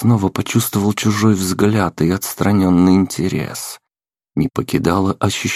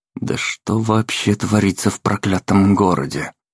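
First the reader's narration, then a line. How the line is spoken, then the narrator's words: Mutter. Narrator (Russian): пробормотал я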